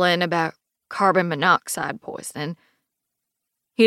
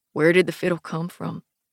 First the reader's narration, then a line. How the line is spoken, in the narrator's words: Cedar asks, his voice surprisingly calm now